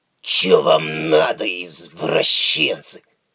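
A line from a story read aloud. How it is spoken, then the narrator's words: Hoarse wheeze. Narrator (Russian): прохрипел он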